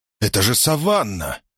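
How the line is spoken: Exclamation. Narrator (Russian): воскликнул Колдмун

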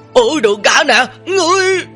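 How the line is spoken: Terrified blurted cry. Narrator (Vietnamese): Người bị Bùi Tiên chỉ ra quá là sợ hãi, buộc miệng kêu lên

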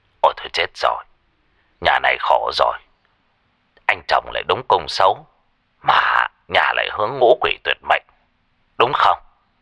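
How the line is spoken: Muttering, calculating. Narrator (Vietnamese): Thầy lẩm bẩm tính toán

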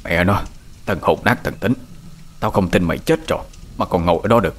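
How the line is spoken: Old man muttering. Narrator (Vietnamese): Lão vỗ ngực lẩm bẩm

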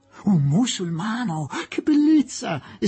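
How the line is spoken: Exclamation. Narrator (Italian): esclamò Miss Quested

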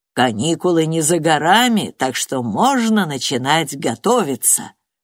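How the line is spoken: Plain. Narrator (Russian): сказал сэр Иэн

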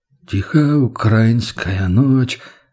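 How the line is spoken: Humming under breath. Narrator (Russian): замурлыкал Борис под нос

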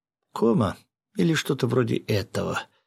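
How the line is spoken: Quiet. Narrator (Russian): тихо проговорила появившаяся рядом Акая

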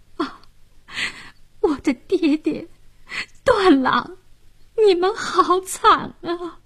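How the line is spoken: Gasping, crying. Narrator (Chinese): 小娥倒吸了一口凉气，哭道

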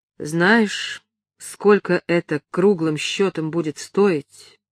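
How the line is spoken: Slow question. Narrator (Russian): спросил он медленно

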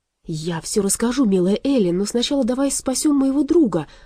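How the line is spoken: Exclaiming. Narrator (Russian): воскликнул Аларм

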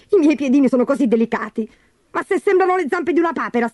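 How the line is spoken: Shrill shriek. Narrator (Italian): strillò Gertrude

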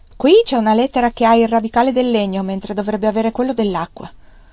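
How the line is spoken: Curt boy reading aloud. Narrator (Italian): il ragazzo nel leggere disse seccamente

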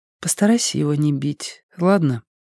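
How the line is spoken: Female whisper. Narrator (Russian): прошептала она вслед удаляющемуся Страйку

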